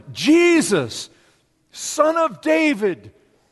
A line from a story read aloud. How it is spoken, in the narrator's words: he cried out